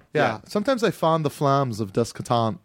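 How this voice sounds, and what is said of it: Impression of Serge from Beverly Hills Cop. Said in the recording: “Serge from Beverly Hills Cop. ... this accent.”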